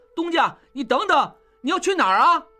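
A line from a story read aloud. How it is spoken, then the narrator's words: Calling out. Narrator (Chinese): 小栓叫着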